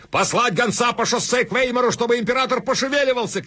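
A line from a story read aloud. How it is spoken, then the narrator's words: Shouted. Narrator (Russian): кричал Ней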